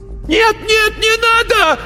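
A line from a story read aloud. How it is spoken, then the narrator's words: Yelled. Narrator (Russian): заорал он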